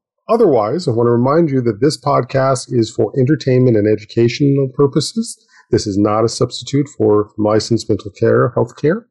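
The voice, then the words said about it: Voice altered by illness. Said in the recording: “my voice sounds a little different today ... I caught COVID”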